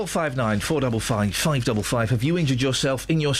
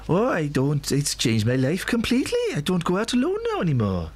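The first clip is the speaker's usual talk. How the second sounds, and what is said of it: Put-on North Welsh accent. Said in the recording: “Do the voice. ... North Wales.”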